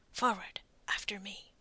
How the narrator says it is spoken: whispered

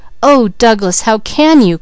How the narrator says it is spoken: cried Leslie

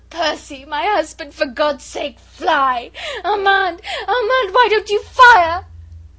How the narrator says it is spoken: She lay there moaning, bruised, not caring, but still half-sobbing, half-shrieking

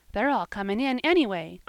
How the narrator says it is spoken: cried little Davy, delightedly

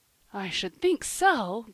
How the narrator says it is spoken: groaned Polly

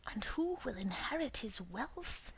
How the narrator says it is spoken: he added in a whisper

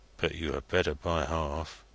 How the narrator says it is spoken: muttered Joey Ladle inaudibly

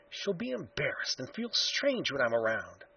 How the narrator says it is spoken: he whispered to himself

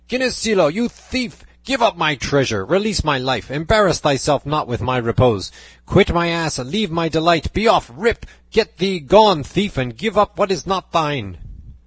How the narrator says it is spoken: he shouted to him

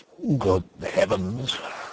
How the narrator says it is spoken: The archdeacon again murmurs

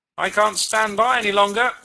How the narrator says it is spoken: shouted the other

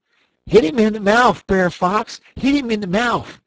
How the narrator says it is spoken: Brer Rabbit, he holler out

